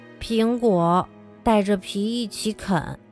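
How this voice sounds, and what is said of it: Quiet, soft-spoken line. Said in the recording (Chinese): “比尔小声说”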